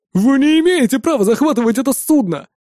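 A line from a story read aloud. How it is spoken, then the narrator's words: Exclamation. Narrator (Russian): воскликнул один из террористов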